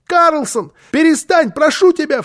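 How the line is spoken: Frightened shout. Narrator (Russian): в страхе крикнул малыш, потому что он видел, в каком бешенстве была Фрёкенбок

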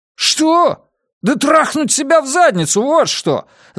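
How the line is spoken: Yelling. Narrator (Russian): завопил я

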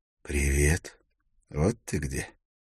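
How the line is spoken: Soft voice. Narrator (Russian): Голос прозвучал мягко

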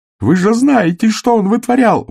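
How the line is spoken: Yelling. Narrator (Russian): вопил Сэм

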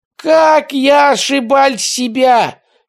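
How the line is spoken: Shouting. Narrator (Russian): кричала фрау-судья

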